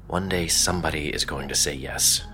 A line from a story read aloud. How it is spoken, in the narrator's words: he mumbled under his breath